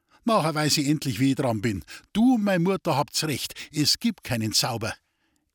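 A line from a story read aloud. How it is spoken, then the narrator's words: Call. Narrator (German): rief Friedel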